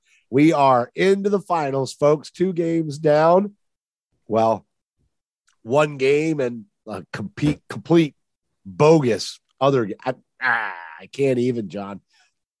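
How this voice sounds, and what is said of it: Voice of someone with a cold. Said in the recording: “I'm sick. I've got a cold.”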